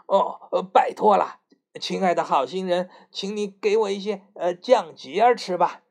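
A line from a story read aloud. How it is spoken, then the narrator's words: Loud. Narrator (Chinese): 他立刻大声说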